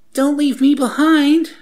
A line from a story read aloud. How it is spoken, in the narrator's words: cried Richard